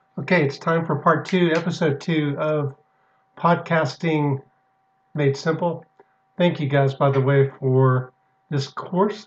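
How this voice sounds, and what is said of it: Slightly hoarse, congested voice. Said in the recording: “I'm a little bit hoarse today. I'm noticing I have a little bit of congestion”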